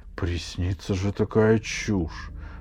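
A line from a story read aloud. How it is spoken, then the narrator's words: Grumbling. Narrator (Russian): проворчал жаба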